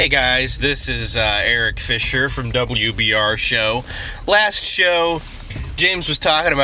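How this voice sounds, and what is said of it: Usual voice. Nothing is said of it.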